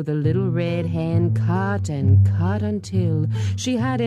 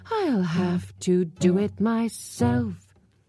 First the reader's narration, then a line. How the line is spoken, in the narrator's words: said the hen with a sigh